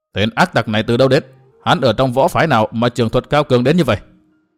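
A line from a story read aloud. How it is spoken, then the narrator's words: Snorting mutter. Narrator (Vietnamese): Đạo sư thở phì một tiếng lẩm bẩm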